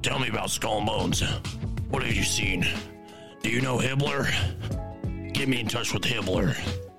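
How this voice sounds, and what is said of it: Imitates another person's voice. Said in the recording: “my Alex Jones impression”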